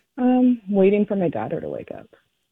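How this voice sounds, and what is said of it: Quiet, low voice. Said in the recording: “quiet. your voice is kind of low.”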